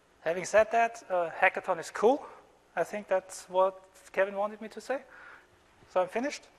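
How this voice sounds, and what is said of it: Non-native English accent. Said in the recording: “as you maybe hear from my accent, English is not my native tongue”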